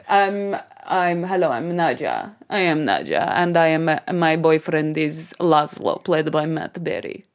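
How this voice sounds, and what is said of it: Mixed Eastern European-style put-on accent. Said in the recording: “it's very mixed. It's like Transylvania meets... you're going a bit cockney again... So it's like Russian, come... Eastern... European”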